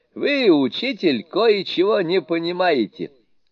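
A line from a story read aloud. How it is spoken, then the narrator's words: Laughing speech. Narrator (Russian): сказал смеясь Суню-кун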